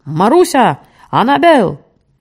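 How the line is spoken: Shouting. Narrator (Russian): закричал

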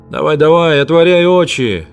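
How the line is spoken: Mocking familiar voice. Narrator (Russian): насмешливо сказали рядом до боли знакомым голосом

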